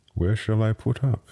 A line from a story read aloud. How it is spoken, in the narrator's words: he said